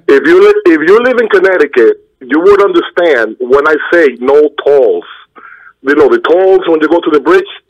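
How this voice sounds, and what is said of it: Speaks with a noticeable accent. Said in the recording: “my accent that killed you”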